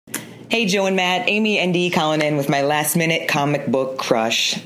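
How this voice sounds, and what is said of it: Bizarre accent. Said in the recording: “She's got a bizarre accent.”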